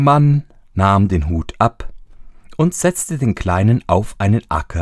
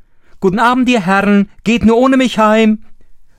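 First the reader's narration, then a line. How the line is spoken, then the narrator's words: Mocking, laughing call. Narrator (German): rief er ihnen zu und lachte sie aus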